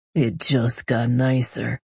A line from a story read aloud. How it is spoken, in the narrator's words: he says in a deep, smoky voice